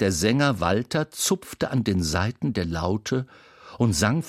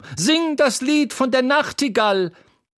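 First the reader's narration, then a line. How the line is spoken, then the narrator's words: Woman shouting from audience. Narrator (German): schrie eine Frau im Publikum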